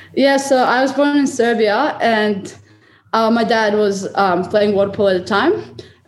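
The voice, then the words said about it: Serbian-accented English. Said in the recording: “your awesome accent. So you were born in Serbia”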